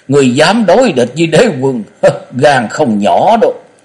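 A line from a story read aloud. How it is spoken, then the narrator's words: Mocking chuckle. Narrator (Vietnamese): Tám lão kim chiếu sứ giả bật cười hăng hắc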